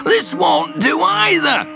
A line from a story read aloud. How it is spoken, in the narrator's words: he spluttered